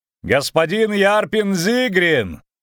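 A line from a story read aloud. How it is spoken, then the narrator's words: Shouting. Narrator (Russian): крикнул Виллен Треттен Мертен краснолюду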